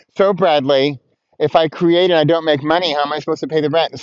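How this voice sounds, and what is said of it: Whiny complaining voice. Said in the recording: “Sorry, with the voice. That's my whiny voice. ... But but it's not even really whiny, right?”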